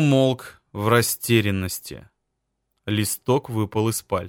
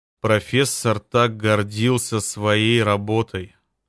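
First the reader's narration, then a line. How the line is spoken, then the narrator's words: Hoarse mutter. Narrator (Russian): хрипло пробормотал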